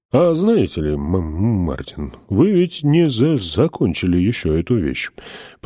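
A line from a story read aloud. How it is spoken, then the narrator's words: Deep sad voice. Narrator (Russian): произнес он глубоким печальным голосом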